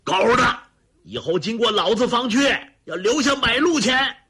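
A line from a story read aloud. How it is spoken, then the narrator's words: Roaring. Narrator (Chinese): 他大吼道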